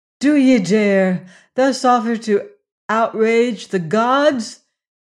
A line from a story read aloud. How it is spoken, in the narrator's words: cried